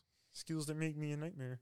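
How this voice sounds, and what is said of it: Kermit the Frog voice impression. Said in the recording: “That's Kermit the Frog ... that impression”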